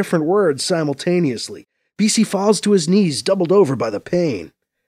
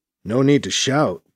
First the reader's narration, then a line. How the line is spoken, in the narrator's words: BC mumbles